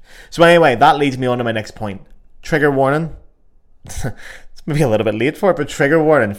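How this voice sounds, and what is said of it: Belfast accent. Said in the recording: “my beautiful Belfast accent”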